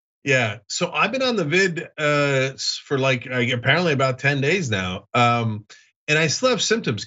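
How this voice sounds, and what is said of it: Sick-sounding voice. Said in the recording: “Can you guys tell from my voice that I'm a yeah. ... little sick? Yes, I hear it.”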